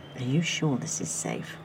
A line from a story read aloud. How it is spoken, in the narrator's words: Adam asked Pete